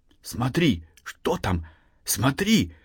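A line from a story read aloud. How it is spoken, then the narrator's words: Excited whisper. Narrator (Russian): взволнованно зашептал Андрей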